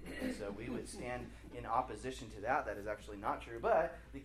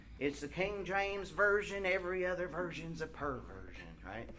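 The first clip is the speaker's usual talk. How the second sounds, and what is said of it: Put-on Southern accent. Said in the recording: “they always have a southern accent”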